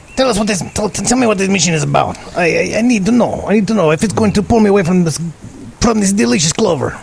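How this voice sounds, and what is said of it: Put-on changed accent. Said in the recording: “Now I'm changing my accent.”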